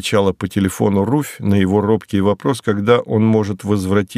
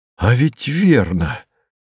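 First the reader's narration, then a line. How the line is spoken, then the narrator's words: Exclaiming. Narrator (Russian): воскликнул Мартин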